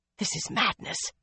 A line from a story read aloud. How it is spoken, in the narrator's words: Nisau muttered